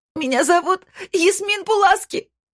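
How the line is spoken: Shouting. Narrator (Russian): закричала она

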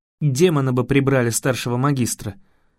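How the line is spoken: Snort. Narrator (Russian): фыркнул Рион

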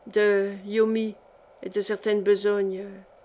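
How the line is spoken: Stammered. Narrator (French): balbutia-t-il

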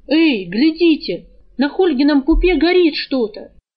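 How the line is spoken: Boy yelling. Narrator (Russian): первым завопил какой-то мальчишка

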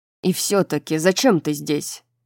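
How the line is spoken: Irritated question. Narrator (Russian): раздраженно спросил Рун

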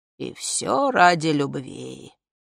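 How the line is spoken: Nasty voice. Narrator (Russian): мерзким голосом сказал А

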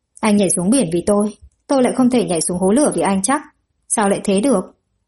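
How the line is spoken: Muttered. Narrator (Vietnamese): Lăng Hà lẩm bẩm

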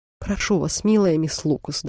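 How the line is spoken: Sad. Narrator (Russian): добавила она печально

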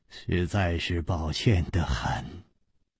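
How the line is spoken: Sighing. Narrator (Chinese): 张啸林叹了一口气说

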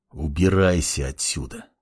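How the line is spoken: Muttered through gritted teeth. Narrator (Russian): Процедил сквозь зубы глава клана

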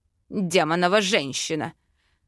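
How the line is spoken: Growling. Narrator (Russian): зарычал король

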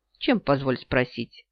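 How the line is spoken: Scoffing snort. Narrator (Russian): Ян фыркнул

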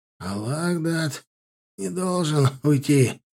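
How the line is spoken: Hoarse, labored breathing. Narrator (Russian): хрипло дыша сказал Сорокин

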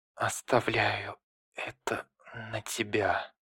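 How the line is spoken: Strained whisper. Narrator (Russian): Минато с трудом прошептал

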